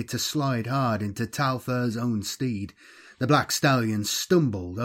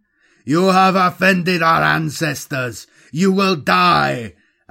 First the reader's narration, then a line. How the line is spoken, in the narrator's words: Alcahan shouted back